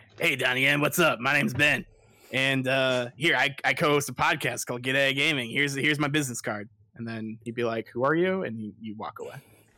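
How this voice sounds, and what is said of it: Imitates another person's voice. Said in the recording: “Let me do my impression of you.”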